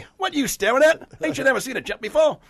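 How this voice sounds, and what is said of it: Put-on Artful Dodger character accent. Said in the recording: “I've already got my accent ... I've got my accent ... the Artful Dodger”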